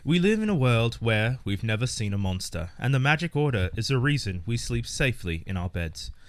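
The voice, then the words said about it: Put-on British accent. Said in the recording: “I want to try an accent with this one, guys... British... I will do my best”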